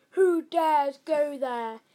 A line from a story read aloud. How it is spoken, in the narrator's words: bellowed a short, fat, hairy troll